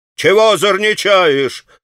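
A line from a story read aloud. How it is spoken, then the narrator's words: Townsman shouting. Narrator (Russian): закричал мещанин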